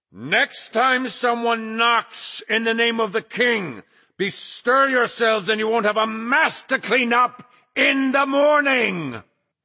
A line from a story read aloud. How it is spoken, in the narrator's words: Flagg bellowed